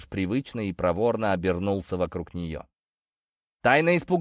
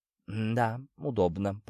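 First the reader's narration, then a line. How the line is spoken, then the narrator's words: Timid. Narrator (Russian): произнесла робко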